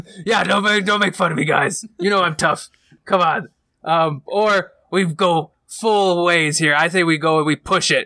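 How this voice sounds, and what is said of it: Raspy tough-guy character voice. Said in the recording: “get back down into a raspy voice ... I'm a Captain Tough Guy”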